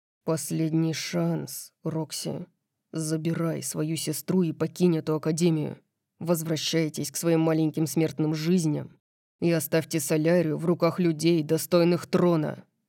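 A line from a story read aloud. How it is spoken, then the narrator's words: Grim. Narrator (Russian): мрачно сказал он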